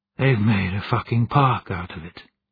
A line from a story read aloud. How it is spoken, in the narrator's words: breathed